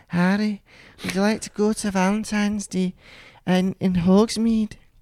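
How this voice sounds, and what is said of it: Impression of a story character. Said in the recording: “Is this a good impression? I feel like we're spot on with this”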